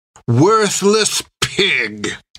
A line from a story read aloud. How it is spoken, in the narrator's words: spat Creech